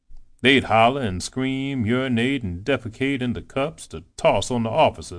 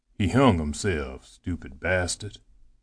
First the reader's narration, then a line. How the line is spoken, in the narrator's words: he said sadly